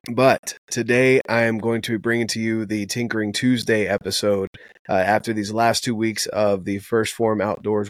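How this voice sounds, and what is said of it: Sore, strained throaty voice. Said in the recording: “my throat has been killing me ... my nose and throat are kind of feeling that. So excuse the voice”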